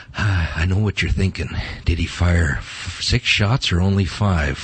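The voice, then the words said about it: Clint Eastwood style gravelly impression. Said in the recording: “my best Clint Eastwood imitation”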